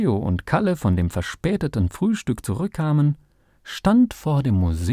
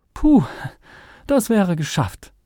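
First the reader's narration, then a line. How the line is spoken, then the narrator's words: Groaning. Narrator (German): stöhnte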